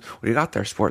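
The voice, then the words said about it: Imitates another person's voice. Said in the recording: “me doing my Christopher Lloyd impression”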